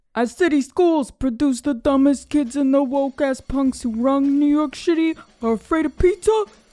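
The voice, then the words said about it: Put-on accent. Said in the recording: “I want you to do it in an accent”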